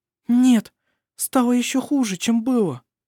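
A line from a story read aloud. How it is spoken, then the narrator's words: Frightened. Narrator (Russian): сказала она, испуганно взглянув на него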